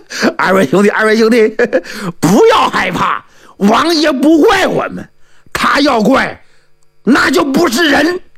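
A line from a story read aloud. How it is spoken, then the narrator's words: Hearty laughter. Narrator (Chinese): 洪亮、尤海是哈哈大笑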